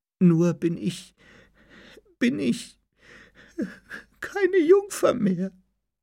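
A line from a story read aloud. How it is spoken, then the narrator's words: Sobbing stammer. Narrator (German): brach sie in Schluchzen aus und stammelte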